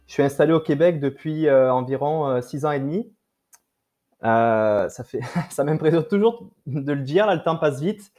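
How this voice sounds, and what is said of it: French accent from France. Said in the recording (French): “mon accent français me trahit ... je suis d'origine euh, de France”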